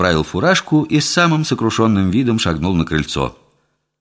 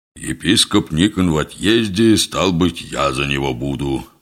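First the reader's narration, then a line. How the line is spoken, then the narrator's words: Deep booming bass. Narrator (Russian): густым басом прогудел отец Кондрат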